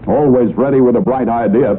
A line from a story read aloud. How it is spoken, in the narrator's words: Peter called out